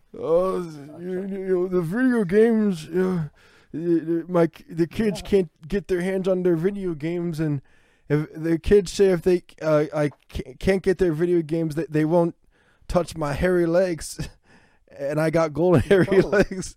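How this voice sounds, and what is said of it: Joe Biden impression. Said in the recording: “I can't do a Biden impression, but it was Biden thinking”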